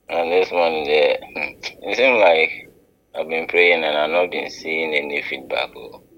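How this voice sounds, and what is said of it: Deep voice. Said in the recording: “deep voice”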